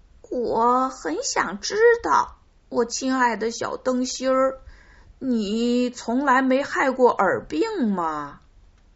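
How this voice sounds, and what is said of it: Sweet, thin high voice. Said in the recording (Chinese): “用很甜很细的声音说”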